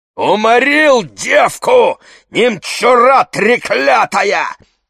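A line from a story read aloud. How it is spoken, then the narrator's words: Shouting. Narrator (Russian): закричал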